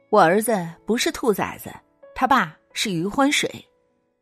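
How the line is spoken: Angry retort. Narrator (Chinese): 他怒怼欺软怕硬的小舅子

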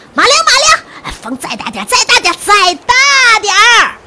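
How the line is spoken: Impatient shouting. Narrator (Chinese): 皇帝还觉得船慢，他呀站到船头继续喊

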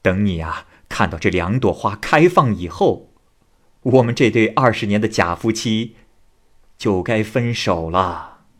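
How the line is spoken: Laughing. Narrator (Chinese): 岳仲笑着说

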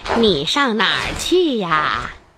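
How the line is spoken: Plain. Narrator (Chinese): 小红帽不知道和大灰狼说话是很危险的，就说

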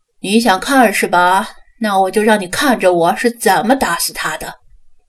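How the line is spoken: Sneering coldly. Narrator (Chinese): 刘永辉冷笑道

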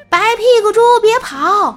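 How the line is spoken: Farmer shouting while chasing. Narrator (Chinese): 农夫边追边喊

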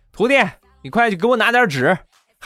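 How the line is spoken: Calling out. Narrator (Chinese): 就喊他徒弟

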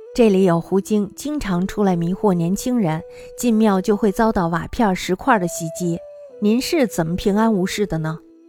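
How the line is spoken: Laughing heartily. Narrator (Chinese): 笑得胡子都翘了起来，说道

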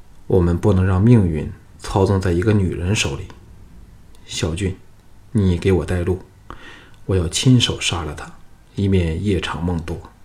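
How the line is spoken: Flat, indifferent. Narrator (Chinese): 藤义淡淡的说

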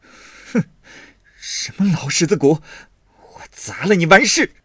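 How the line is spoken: Angry, teeth clenched. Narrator (Chinese): 赌气，咬牙狠命，道

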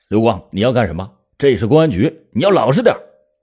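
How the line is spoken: Sudden roar. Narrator (Chinese): 侦查员就突然对他吼了一声说

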